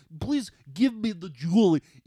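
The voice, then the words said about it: Put-on Russian accent. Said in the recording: “he does the Russian accent”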